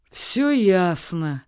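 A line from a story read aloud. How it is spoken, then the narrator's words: Mocking, goose. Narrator (Russian): насмешливо кивнула гусыня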